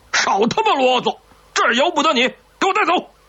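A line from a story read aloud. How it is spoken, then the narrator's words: Roaring. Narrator (Chinese): 军官吼道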